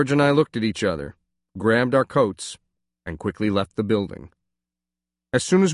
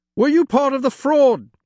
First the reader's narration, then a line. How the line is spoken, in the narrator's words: one shouted